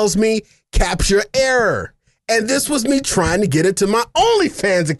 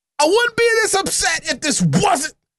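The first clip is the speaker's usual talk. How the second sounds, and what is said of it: Yelling, loud upset voice. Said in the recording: “Why am I yelling?”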